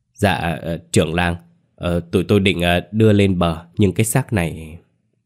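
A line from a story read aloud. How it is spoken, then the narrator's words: Stammering man. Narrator (Vietnamese): một người đàn ông lắp bắp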